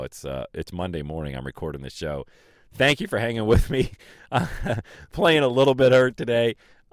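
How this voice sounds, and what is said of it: Raspy, hoarse voice. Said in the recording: “a very tough allergy day for yours truly ... My voice, I probably sound really raspy right now”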